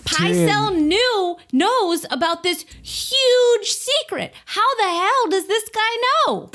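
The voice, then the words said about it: Excited screaming voice. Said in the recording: “I'm screaming right now.”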